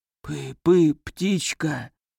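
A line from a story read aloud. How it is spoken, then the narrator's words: Barely audible whisper, crying. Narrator (Russian): прошелестел едва слышно Леонид и заплакал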